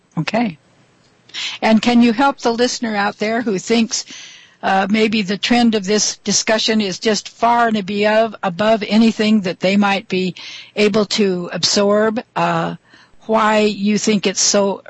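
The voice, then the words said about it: Congested voice from a cold. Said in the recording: “I've got a little bit of a cold today, so I hope the listeners will bear with me with this kind of funny voice”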